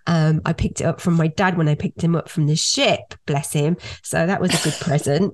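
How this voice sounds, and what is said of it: Nasal voice from a cold. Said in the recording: “I have got a little bit of a cold, so I'm sorry if I do sound a little bit nasally.”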